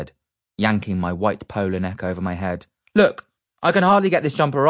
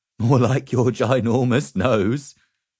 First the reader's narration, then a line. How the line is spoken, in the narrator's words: chuckled my dad